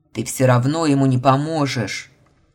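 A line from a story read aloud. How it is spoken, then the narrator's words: Spluttering bear roar. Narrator (Russian): Брызжа слюной, рыкнул медведь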